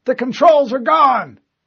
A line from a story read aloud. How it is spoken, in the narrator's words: Someone yelled